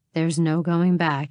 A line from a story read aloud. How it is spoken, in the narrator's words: he swore in that same rough tone